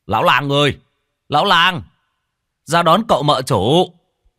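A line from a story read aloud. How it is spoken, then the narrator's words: Man shouting. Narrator (Vietnamese): Người đàn ông mập kéo dây cương thắng ngựa, miệng hét lên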